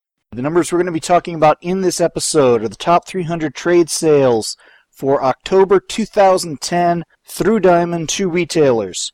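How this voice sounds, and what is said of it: Voice sounds a little sick. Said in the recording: “my voice sounds a little bad, that's because I got sick”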